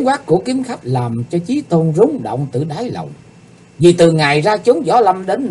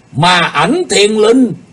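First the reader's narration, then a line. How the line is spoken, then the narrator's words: Loud shout. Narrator (Vietnamese): Kiếm khách Phạm Thiên Hòa quát lớn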